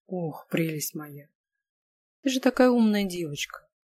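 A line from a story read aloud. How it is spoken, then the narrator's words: Chuckle in ear. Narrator (Russian): хохотнули мне в ухо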